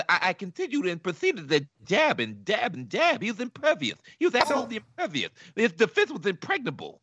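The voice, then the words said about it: Mike Tyson impression. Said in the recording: “best Tyson impersonation on the show”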